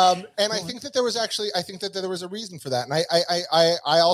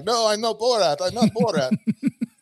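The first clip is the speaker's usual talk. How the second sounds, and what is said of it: Put-on Borat character accent. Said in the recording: “That's a good accent. ... It's the only one I could do.”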